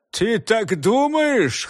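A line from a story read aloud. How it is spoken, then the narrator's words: Hoarse laughter. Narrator (Russian): хрипло засмеялся Бернштейн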